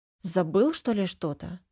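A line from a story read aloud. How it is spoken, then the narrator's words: Muttering. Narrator (Russian): бормочу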